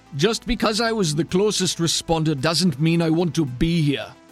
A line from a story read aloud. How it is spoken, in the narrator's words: the man yells back